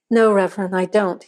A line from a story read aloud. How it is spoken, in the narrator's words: replied evenly